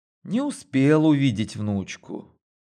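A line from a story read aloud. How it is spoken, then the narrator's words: Sighing, near tears. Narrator (Russian): вздохнула она и чуть не прослезилась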